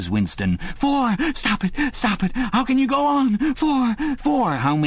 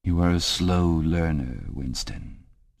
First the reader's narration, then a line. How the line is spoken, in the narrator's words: said O'Brien gently